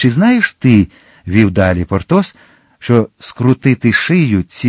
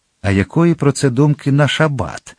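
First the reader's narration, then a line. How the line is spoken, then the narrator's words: Calm question. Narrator (Ukrainian): спокійно спитав Атос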